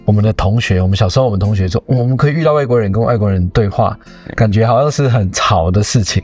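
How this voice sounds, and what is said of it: Taiwanese Mandarin accent. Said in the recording (Chinese): “一听口音就知道你们台湾来的”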